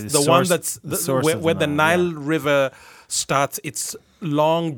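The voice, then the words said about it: Non-North American accent. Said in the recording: “You're making fun of my accent... my tongue is not quite North American yet”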